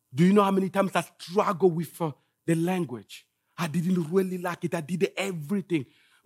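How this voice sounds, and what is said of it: Congolese-accented English. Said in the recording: “I have an accent ... I'm from Congo ... I was struggling with my accent”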